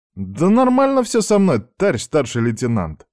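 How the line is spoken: Indignant outburst. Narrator (Russian): возмущенно вскинулся Аникеев

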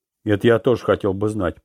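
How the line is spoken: Grumbled. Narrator (Russian): проворчал Манки

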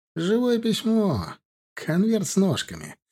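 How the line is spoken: Giggling, pleased with himself. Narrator (Russian): Он начал хихикать над своей, как ему показалось, удачной шуткой

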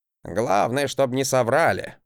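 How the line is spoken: Grumble. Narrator (Russian): проворчал Гринельф

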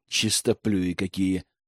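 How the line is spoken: Scoffing snort. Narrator (Russian): хмыкнул Герман

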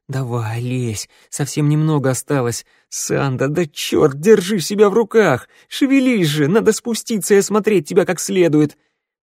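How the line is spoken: Coaxing through gritted teeth. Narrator (Russian): скрипящий зубами, он уговаривал

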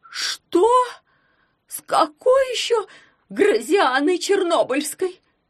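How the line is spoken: Anguished exclamation. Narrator (Russian): страдальчески воскликнула она

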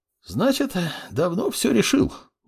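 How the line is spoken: Sighing. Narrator (Russian): вздохнул принимающий

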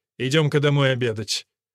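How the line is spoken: Stern command. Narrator (Russian): строго приказал

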